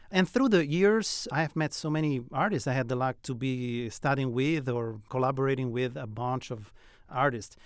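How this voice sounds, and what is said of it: Italian accent. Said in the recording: “from my accent, you can tell I'm not from Florence, South Carolina, nor Italy, actually. I'm from Rome, Italy.”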